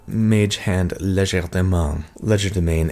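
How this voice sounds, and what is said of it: Word said in French accent. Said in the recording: “every time I do that with a French accent”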